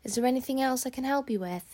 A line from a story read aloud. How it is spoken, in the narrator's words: he says